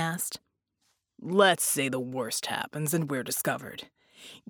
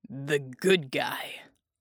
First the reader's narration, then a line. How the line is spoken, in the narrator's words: Jack grunted